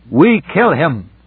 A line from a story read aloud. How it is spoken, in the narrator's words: he shouted